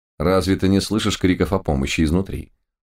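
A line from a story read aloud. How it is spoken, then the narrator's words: Cold surprise. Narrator (Russian): холодно удивился Лис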